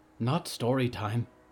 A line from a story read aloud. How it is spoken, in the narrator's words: Al whispered